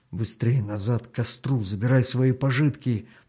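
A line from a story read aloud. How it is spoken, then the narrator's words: Whispered. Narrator (Russian): прошептал Артему хан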